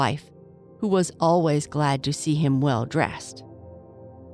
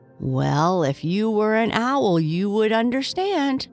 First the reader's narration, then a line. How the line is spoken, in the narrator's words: chuckled the crow